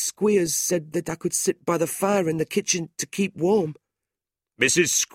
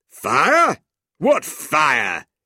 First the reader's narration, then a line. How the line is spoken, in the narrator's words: the schoolmaster demanded angrily